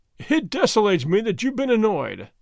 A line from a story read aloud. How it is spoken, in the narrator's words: the governor said, laughing